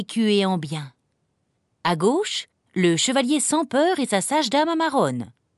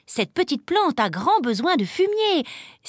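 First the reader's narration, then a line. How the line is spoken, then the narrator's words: Exclaimed. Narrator (French): s'écria Amarone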